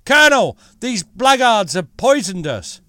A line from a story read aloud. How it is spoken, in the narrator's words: called out